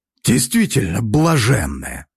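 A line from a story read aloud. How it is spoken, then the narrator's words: Snort. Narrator (Russian): хмыкнул Иваныч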